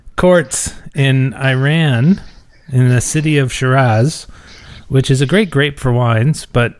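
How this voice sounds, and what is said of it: Usual voice. Nothing is said of it.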